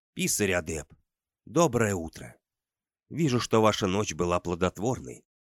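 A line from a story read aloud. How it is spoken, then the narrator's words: Low, hoarse, experienced voice. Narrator (Russian): раздался из приоткрытой щели низкий хриплый голос, в котором ощущался большой опыт и доверие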